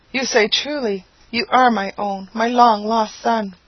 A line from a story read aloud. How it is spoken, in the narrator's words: The delightful mother immediately caught him to her heart, exclaiming